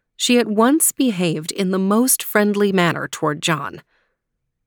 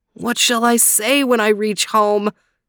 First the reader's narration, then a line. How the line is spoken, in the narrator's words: moaned